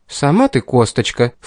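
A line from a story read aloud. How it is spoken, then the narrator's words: Amused snort. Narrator (Russian): фыркнула Кейтлин, улыбаясь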